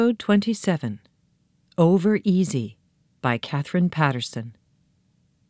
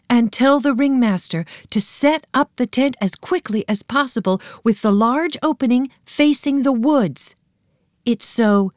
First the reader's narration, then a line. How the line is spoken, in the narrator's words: she shouted after him